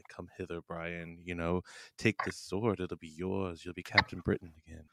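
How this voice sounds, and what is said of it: Sultry seductive voice. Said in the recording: “sexy voice”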